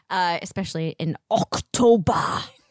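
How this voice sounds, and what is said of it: Put-on German accent. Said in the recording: “That's my German accent for Oktoberfest. ... You sounded Klingon.”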